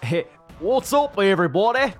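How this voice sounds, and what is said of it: Exaggerated Cockney-Australian put-on accent. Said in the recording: “I was gonna like come in with a British accent, but for some reason what came out was the most fucking out of Cockney Australian fucking kangaroo bullshit”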